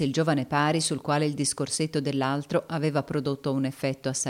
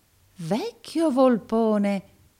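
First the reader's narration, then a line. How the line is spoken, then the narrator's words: Exclaimed. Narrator (Italian): esclamò il pari Verisoft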